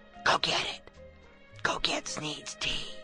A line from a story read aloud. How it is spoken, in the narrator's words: whispered